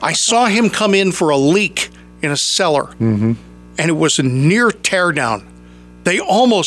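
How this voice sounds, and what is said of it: Usual voice. Nothing is said of it.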